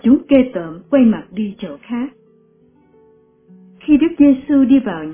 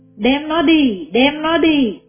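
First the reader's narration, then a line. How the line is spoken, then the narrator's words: Crowd shouting. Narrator (Vietnamese): chúng la lên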